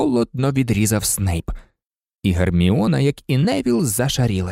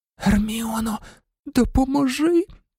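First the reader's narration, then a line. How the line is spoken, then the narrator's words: Moaned. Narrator (Ukrainian): простогнав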